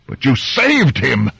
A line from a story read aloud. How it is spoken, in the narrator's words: Diwa shouted